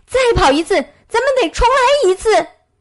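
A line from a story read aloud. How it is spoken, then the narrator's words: Surprised, puzzled shout. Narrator (Chinese): 野兔大吃一惊，感到十分奇怪，于是叫道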